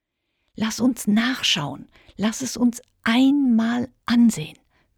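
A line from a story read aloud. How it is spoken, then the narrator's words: Whispered. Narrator (German): wisperte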